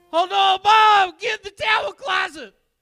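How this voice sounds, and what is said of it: Shouted tornado impression. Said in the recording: “worst tornado impression”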